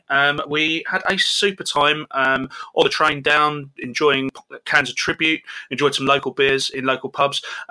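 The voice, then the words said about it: English accent. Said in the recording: “my English accent”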